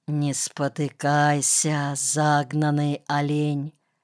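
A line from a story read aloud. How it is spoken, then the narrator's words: Impulsive whisper. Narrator (Russian): его губы, повинуясь внезапному, невесть откуда возникшему импульсу, прошептали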